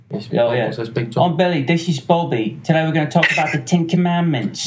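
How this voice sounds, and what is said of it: Put-on Cockney English accent. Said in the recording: “The Cockney English guys ... What does Cockney sound like? ... what that accent is”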